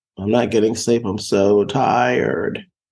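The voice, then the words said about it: Imitates own tired complaining voice. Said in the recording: “That was me imitating myself.”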